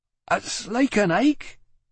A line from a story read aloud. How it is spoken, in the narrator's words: she cried